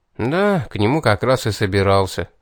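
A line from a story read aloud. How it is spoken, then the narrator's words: Sighed. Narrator (Russian): вздохнул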